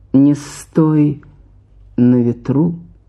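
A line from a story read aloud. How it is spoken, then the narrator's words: Calm, eerie, smiling. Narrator (Russian): Улыбнулся спокойно и жутко и сказал мне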